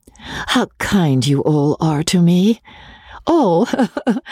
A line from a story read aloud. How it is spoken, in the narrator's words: she added with a laugh